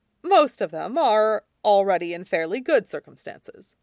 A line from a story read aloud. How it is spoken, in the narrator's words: Jin Sichuan said